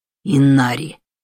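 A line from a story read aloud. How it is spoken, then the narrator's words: Growling. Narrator (Russian): прорычал Юмей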